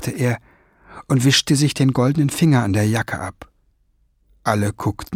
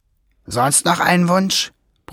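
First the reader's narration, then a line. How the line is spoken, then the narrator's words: Grumbled. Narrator (German): brummte Schwefelfell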